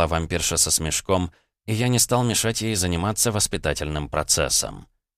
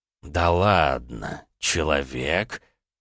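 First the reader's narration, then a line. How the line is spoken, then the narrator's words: Surprised drawl. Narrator (Russian): удивленно протянул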